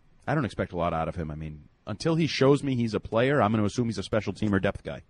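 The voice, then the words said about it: Talking very fast, wound up. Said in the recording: “Why are you talking really fast? ... He's a little wound up today.”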